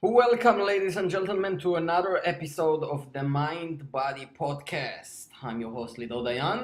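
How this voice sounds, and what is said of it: Jewish accent. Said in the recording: “with the sexy Jewish accent”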